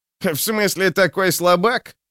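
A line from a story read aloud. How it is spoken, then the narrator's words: Short chuckle. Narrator (Russian): хохотнул Желток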